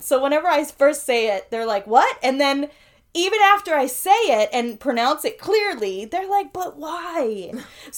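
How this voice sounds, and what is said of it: New York accent. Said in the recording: “I'm from Queens ... I've lived all over the city of New York City. But, you know, that's my accent.”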